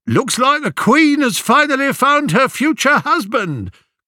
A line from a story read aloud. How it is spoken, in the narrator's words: called out